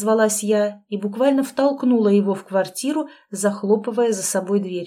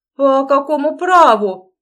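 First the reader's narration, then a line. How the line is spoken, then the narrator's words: Barked. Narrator (Russian): наконец гаркнул он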